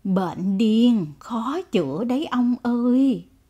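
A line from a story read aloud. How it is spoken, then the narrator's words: Sighing. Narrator (Vietnamese): Bà Phủ thở dài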